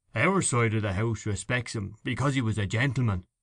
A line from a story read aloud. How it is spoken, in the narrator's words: he said in a deep voice